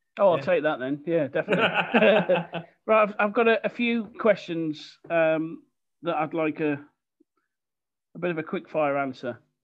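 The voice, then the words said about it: Monotone Birmingham (Brummie) accent. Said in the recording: “monotone Brummy accent ... it's a good presenter accent ... A good Midland accent's a good presenter accent”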